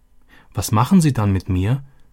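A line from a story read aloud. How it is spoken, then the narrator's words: Fearful question. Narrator (German): erkundigte sich Robbie ängstlich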